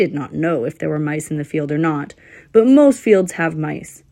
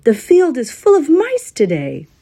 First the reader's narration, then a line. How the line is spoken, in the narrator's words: in what he hoped would be a different voice, he called out